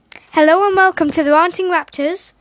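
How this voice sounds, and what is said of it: Put-on Irish accent. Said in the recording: “do Irish... Scary!”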